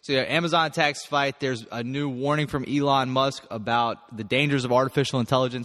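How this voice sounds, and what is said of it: Groggy, not fully awake voice. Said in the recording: “my voice might sound a little bit like it hasn't fully gotten woken up yet”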